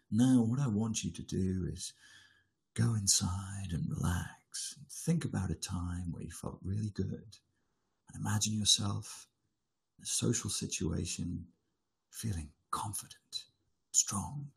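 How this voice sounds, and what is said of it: Paul McKenna hypnotist impression. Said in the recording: “I'll do my Paul McKenna voice. ... there's still a little bit of smashy and nicey that comes through there sometimes when he's doing his hypnosis”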